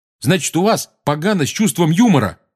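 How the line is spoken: Barked. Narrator (Russian): рявкнул Рон

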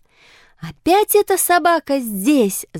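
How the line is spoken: Shouted. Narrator (Russian): закричала она

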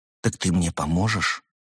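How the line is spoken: Quiet question. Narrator (Russian): тихо спросил Артур

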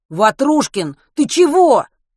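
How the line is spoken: Shout. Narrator (Russian): крикнул Матвей

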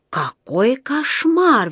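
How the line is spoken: Exclamation. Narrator (Russian): воскликнула она

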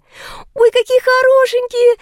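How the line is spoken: Excited squeal. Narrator (Russian): завизжала Лика

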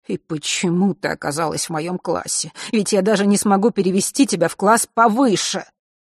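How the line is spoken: Angry muttering. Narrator (Russian): продолжая что-то сердито бормотать себе под нос

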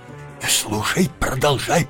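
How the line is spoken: Whisper. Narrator (Russian): прошептал Джонни

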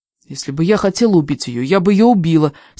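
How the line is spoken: Angry. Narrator (Russian): сердито сказала я

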